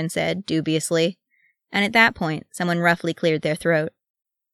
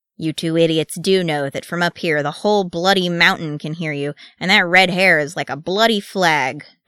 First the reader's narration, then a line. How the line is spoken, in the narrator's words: Dwalin growled